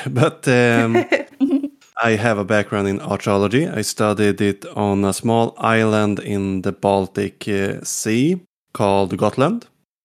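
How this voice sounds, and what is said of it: Swedish accent in English. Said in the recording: “I'm ... from Sweden. So if I get some accent”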